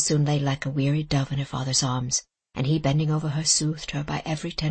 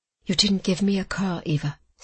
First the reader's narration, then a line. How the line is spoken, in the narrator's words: said her father, smiling sadly